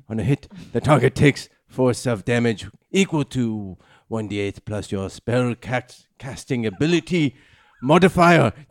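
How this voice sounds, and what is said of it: Put-on accent while reading aloud. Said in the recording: “This is very difficult to maintain consistency of accent. ... I think you're doing a very good job. ... You're offending all of your people.”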